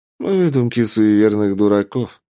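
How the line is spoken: Calm reply. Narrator (Russian): спокойно ответил

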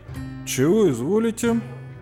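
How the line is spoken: Hesitant drawl. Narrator (Russian): Неуверенно протянул я

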